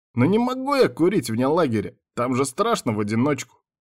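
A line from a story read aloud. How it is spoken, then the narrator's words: Timid babbling. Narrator (Russian): пролепетал Тибальт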